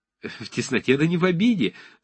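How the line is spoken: Said, tense laughter. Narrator (Russian): сказал брат судебного пристава и захохотал напряженно

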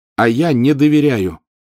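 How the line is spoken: Loud declaration. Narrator (Russian): все так же громко заявил он

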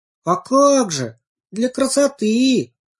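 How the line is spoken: Shouting chorus of pansies. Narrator (Russian): Хором закричали все анютины глазки

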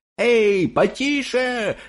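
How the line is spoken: Yelling, irritated. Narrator (Russian): орал он, когда кто-то пытался задать ему вопрос

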